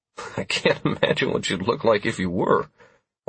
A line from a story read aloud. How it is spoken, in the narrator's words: I said with a little chuckle